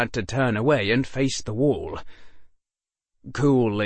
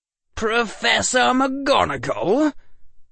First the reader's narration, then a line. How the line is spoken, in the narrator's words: cried Draco